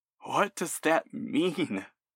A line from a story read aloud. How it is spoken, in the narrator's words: You gasp